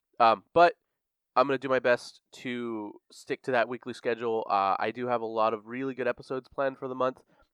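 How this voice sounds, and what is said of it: Sick, slightly congested voice. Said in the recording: “I'm a little sick right now still. I'm just getting over it. So if you guys hear that in my voice or if I cough a little”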